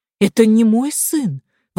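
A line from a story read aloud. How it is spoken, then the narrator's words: Exclamation. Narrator (Russian): воскликнула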